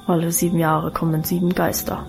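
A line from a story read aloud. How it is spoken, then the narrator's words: Dull murmur. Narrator (German): murmelte Alvine dumpf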